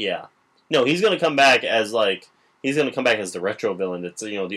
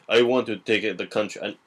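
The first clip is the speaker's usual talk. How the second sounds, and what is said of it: Put-on Russian accent. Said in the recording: “I can't get done without the Russian accent, I'm sorry.”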